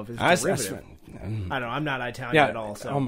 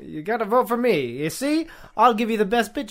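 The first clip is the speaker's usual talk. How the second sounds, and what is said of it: Exaggerated Italian accent. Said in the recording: “What are you, Luigi? Are you Mario? ... It's like a derivative Italian accent you're doing there.”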